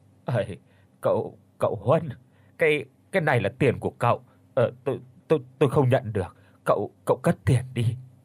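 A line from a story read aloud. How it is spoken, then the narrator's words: Panicked, stammering old woman. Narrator (Vietnamese): bà mới hốt hoảng lắp bắp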